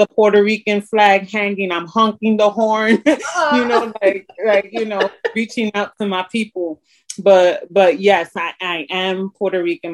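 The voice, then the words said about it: Strong New York accent. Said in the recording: “that's that New York thing. That's what I hear in your voice. I hear that New York coming out strong.”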